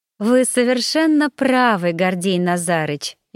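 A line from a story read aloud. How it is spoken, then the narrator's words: Sugary agreeing voice. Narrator (Russian): елейным голоском поддакнула я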